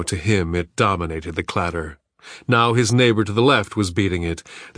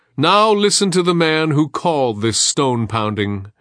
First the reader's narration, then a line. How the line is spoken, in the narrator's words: the shaman herald called out